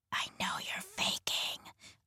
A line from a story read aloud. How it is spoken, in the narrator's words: whispered, trying to call his bluff